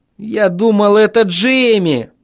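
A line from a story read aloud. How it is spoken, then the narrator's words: Groaning. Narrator (Russian): Простонал я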